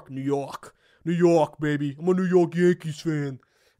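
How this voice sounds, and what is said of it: Mocking New York Yankees fan accent. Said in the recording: “I was trying to make fun of the Yankee accent.”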